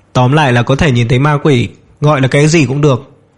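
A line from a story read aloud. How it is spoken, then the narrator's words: Laughing loudly. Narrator (Vietnamese): Dương Minh cười lớn nói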